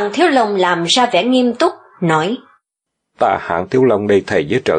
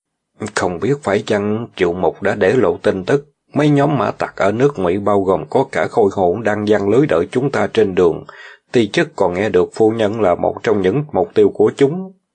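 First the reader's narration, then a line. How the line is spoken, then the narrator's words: Lowered mysterious voice. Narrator (Vietnamese): Hạng Thiếu Long giả vờ hạ giọng xuống, nói một cách bí hiểm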